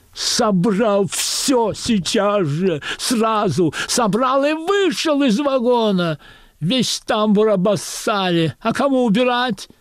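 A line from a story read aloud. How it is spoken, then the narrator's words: Shrill scream in silence. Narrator (Russian): В наступившей тишине истошно вопит проводница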